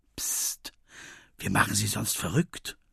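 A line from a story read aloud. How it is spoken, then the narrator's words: Whispered. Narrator (German): flüstert Finn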